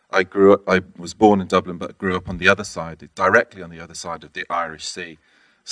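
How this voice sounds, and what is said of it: Northern English accent. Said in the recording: “you might be able to tell from my accent, I have an English accent, north of England accent.”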